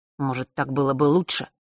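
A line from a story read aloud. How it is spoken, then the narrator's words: Angry reply. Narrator (Russian): зло ответил Фэш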